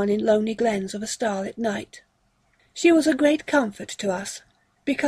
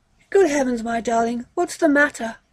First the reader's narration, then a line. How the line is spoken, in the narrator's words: I cried